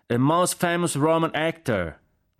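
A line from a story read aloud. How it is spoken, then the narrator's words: Shouting. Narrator (Italian): gridò Jack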